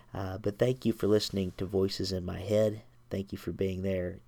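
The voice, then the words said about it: Slightly stuffy, congested voice. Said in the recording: “Sorry for my voice if it sounds a little stuffy. I've picked up a little bit of a cold today.”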